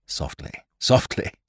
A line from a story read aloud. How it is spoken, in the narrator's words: said Ned, and laughed quietly in his throat